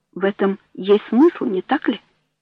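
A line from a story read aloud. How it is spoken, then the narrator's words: Quiet. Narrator (Russian): произнес он тихо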